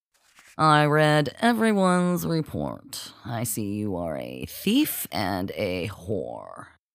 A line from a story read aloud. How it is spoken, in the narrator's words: he stated in his nasal, condescending tone